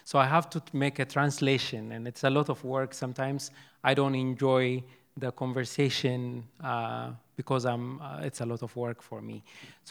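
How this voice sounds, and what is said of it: Non-native English accent. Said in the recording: “I thought I know English ... people do not understand what I'm saying because of my accent.”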